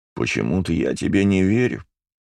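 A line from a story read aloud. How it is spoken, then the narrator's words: Sad tone. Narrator (Russian): печальным тоном произнес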